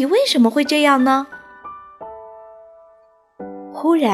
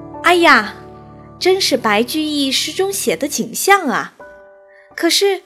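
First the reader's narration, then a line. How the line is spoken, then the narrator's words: Spontaneous admiring exclamation. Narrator (Chinese): 沈括情不自禁地赞叹道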